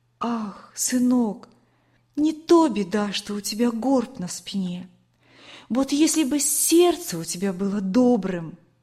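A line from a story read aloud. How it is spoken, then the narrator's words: Tender female speech. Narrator (Russian): она ласково говорила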